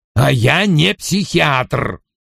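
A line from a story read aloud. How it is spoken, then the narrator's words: Snapping retort. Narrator (Russian): огрызнулся Вульф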